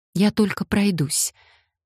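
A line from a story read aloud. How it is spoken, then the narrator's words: Trembling voice. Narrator (Russian): добавила дрожащим голосом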